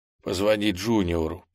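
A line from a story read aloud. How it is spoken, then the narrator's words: Hoarse rasp. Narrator (Russian): прохрипел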